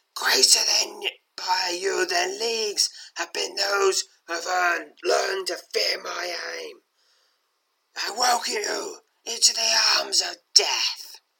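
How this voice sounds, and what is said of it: Croaking, raspy undead ghoul voice. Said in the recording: “croaks the dagger wielding undead in a graspy voice.”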